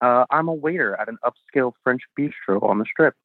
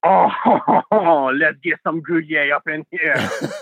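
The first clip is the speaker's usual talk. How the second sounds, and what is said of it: Over-the-top Pepe Le Pew French accent. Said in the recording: “two different types of French accents I do. The over-the-top and the casual... the over-the-top Pepe Le Pew”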